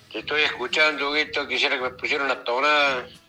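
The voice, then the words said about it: Slow drawling regional accent. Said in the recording (Spanish): “Eso, en cámara lenta, ¿vio? Son sus paisanos, ¿vio? ... hablan en cámara lenta”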